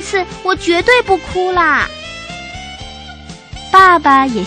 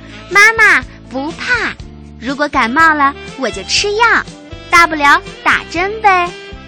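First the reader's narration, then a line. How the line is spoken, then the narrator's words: Loud. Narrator (Chinese): 悠悠大声地说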